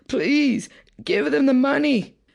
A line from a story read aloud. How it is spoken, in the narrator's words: the two bleeding wives and mother pleaded